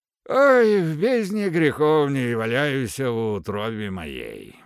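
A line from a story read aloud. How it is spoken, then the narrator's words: Muttered. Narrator (Russian): бормотал он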